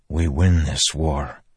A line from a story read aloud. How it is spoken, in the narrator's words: Dalinar said softly